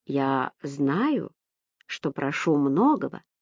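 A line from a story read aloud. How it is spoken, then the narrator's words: Old man, gentle. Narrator (Russian): мягко произнес старик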